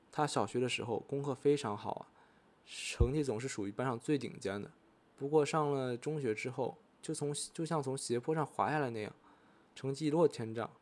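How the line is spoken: Sighing. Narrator (Chinese): 利古惠里香叹一口气说

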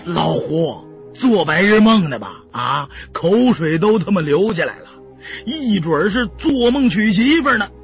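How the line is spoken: Loud laughter. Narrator (Chinese): 胖子大笑

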